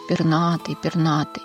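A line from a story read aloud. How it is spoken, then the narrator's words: Muttering dragon. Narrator (Russian): громовой дракон бормочет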